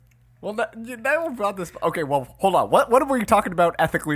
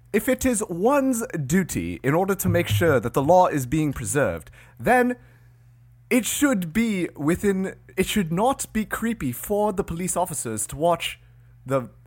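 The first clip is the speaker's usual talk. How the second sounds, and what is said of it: Put-on British accent. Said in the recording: “British accents ... Because I feel like that would make us sound smarter ... Give me your British accent”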